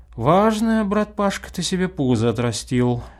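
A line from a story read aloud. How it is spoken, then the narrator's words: Sighing. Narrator (Russian): сказал он и вздохнул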